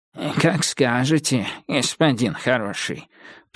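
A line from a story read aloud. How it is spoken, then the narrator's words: Wheezed, short man. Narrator (Russian): прохрипел коротышка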